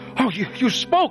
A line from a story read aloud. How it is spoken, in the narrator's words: she screamed